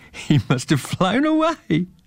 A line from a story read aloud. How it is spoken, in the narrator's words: laughed Joe